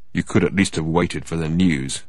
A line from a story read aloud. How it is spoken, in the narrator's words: he said in a dull voice